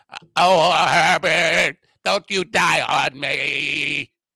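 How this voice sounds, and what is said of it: Imitates another person's voice. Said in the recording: “my RFQ impersonation was originally a Katharine Hepburn thing on Golden Pond”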